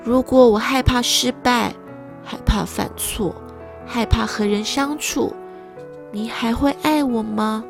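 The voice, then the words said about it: Speaking quietly, softly. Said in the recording (Chinese): “小声的说”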